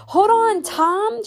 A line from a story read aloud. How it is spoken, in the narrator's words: shouted Granddude